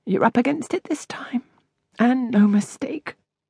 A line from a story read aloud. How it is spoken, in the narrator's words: murmured